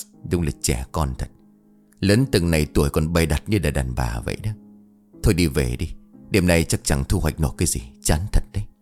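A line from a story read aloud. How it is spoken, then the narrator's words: Muttering. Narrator (Vietnamese): Đại lẩm bẩm nói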